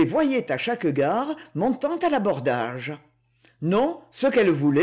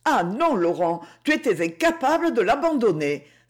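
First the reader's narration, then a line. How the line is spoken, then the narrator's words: Exclaiming with pity, tenderness. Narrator (French): s'écria Rosanne, fondue de pitié et de tendresse à cette seule idée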